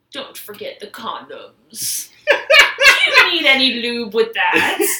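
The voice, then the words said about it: Bad Bane villain voice impression. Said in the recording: “my bad Bane impression ... That's a great impression. ... Really bad.”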